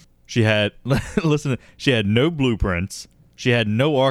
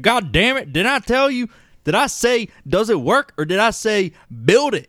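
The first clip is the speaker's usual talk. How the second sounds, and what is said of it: Put-on Southern American accent. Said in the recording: “I don't know why I gave her a southern accent.”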